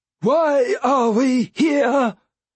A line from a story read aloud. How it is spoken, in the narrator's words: Capra wailed